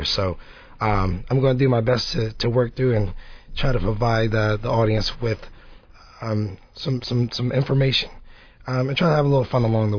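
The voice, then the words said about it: Hoarse voice from a cold. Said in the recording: “apologize for my voice ... I'm trying to get over a cold”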